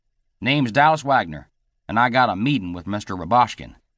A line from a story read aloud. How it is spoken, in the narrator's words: he said